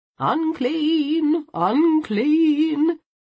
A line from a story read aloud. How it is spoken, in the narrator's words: a voice intoned